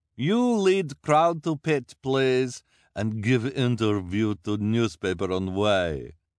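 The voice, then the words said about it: Disguised put-on accent. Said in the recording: “in her disguised accent”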